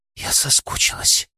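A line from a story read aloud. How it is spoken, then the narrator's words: Breathless whisper. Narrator (Russian): прошептала она, отстранившись лишь на мгновение, чтобы отдышаться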